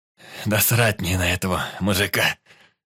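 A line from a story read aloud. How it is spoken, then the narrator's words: Hoarse rasp. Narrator (Russian): просипел бандит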